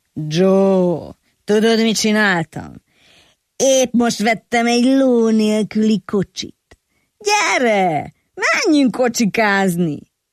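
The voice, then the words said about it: Strange raspy whiskey-worn voice. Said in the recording (Hungarian): “fura rekettes hangon ... Fakó viszkimarta hangja volt”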